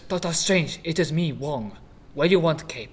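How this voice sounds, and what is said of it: Exaggerated stereotyped put-on accent. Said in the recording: “I want it in a less racist accent, please.”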